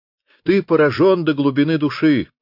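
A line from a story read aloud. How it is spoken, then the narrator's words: Loud laughter. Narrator (Russian): расхохотался Люпен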